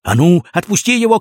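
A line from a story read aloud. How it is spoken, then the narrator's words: Shouted. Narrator (Russian): крикнул Крендель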